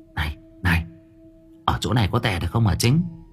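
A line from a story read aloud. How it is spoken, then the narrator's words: Whisper. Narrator (Vietnamese): Tôi thì thào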